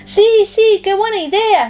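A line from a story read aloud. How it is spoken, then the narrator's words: Overjoyed exclaiming. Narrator (Spanish): exclama Tomás, loco de contento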